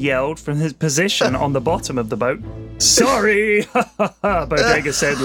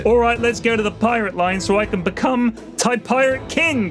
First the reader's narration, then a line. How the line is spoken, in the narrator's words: Bodega yelled